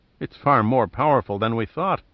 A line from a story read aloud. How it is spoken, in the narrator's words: murmured to himself